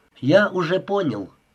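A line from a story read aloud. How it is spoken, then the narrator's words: Plain. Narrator (Russian): сказал Ричард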